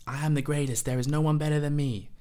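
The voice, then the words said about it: Poor imitation of another person's voice. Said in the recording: “that was a woeful impression.”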